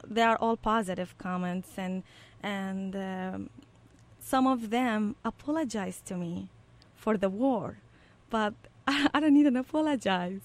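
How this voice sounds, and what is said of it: Iraqi-accented English. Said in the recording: “they notice my accent ... You have a very unique accent. And then I will say that I'm from Iraq.”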